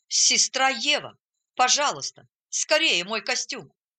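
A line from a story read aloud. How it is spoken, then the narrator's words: Exclaiming. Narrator (Russian): Он воскликнул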